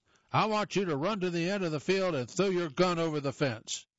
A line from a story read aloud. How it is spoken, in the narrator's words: he shouted